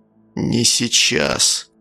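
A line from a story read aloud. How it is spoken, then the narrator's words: Deathly flat voice. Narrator (Russian): произнес отчим мертвенным голосом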